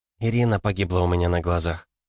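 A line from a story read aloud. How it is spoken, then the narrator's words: Quiet woman. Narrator (Russian): тихо произнесла Катя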